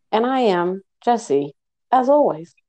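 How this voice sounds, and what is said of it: Slightly robotic, flat delivery. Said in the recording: “Oh, you sounded like a robot. ... Yeah, a little bit.”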